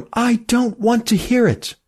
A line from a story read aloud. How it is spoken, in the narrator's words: cried Emmy